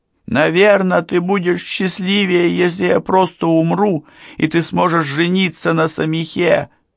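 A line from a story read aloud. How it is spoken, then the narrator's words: Shouted. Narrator (Russian): крикнула я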